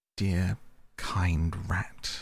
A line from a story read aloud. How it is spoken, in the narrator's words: murmured Toad